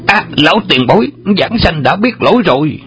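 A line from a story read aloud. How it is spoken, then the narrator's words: Panicked cry. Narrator (Vietnamese): Xích Đại Thông bị chới với giữa khoảng không, kinh hoảng la lên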